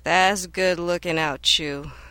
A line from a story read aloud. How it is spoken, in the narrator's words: Tai sighed